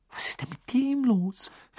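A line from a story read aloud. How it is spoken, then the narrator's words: Whispering. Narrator (German): flüsterte Hermine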